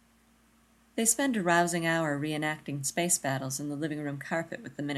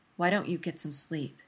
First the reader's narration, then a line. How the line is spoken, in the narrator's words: Rodney murmurs